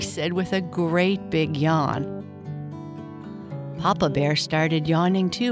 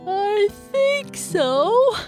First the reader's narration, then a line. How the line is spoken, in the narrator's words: Bernice said with an even bigger yawn